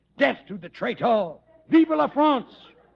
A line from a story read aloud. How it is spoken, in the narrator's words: shouting